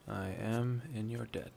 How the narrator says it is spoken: he said softly

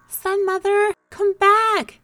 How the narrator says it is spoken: the animals cried fearfully

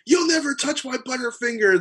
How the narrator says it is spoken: he screams at me

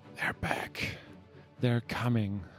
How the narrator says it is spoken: a weakened Skadi on the ground muttering

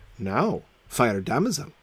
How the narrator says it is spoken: said Sir Launcelot

